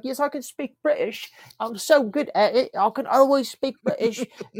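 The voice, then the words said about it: Put-on British accent. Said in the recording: “She thinks that she can do the British accent”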